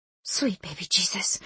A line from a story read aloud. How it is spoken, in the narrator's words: I whispered